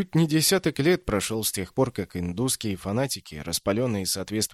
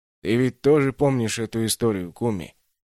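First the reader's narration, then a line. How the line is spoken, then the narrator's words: Sighing. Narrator (Russian): вздохнул Нариман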